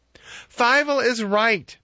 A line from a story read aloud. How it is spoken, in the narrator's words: the people of Helm exclaimed